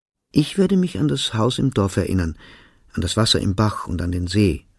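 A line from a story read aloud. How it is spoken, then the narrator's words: Plain. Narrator (German): sagte ich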